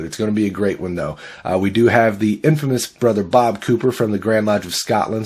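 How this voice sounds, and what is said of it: Stuffy, slightly off, short of breath. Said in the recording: “I'm a little under the weather ... My voice is a little off and shortness of breath ... fun on a stuffy”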